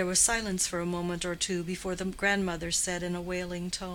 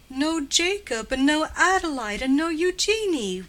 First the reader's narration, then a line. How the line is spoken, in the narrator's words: wailed the grandmother